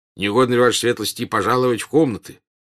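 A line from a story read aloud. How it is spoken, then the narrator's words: Displeased general. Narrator (Russian): недовольным голосом сказал дежурный генерал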